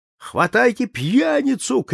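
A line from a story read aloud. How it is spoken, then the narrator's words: Angry shout. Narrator (Russian): крикнул сердитый голос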